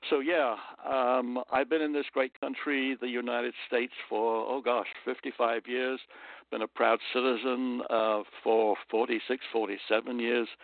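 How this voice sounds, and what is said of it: British accent. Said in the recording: “I haven't tried to lose my accent, it's just stuck with me ... my type of British accent”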